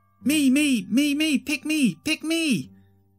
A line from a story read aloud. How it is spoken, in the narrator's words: he screeched